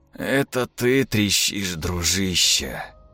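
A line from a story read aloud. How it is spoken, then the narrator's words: Sighing. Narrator (Russian): вздохнул Степан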